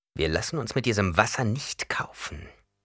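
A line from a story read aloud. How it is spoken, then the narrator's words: Growling. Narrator (German): knurrte Yamis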